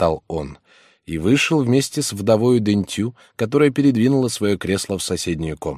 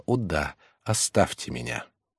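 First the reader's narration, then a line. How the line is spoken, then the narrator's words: Whisper. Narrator (Russian): прошептала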